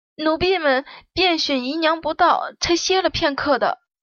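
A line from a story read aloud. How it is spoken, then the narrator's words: Trembling voice. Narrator (Chinese): 其中圆脸的丫头稍微机灵一点，声音颤抖的道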